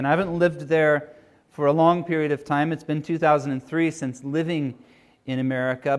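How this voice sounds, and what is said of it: American accent. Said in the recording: “you can probably tell from my accent that I'm American. You may have guessed Canadian”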